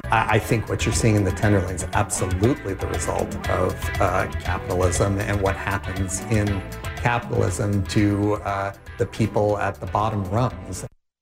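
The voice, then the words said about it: British accent. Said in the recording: “you heard a British accent”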